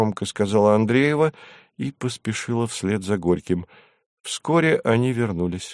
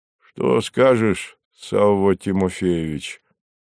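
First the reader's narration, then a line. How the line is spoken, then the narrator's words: Deep voice, slight tension. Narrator (Russian): с едва заметным напряжением в голосе пробасил Горький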